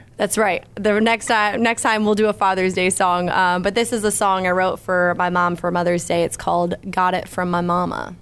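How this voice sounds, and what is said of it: Southern American accent. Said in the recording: “There's the Southern accent.”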